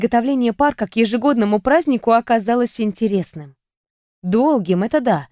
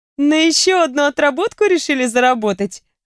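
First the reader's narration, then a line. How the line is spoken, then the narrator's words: Laughing. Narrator (Russian): рассмеялась я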